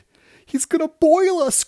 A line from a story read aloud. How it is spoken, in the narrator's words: cried one of them